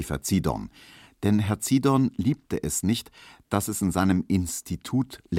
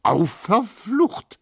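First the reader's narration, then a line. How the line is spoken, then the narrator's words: Calling out. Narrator (German): rief Neumann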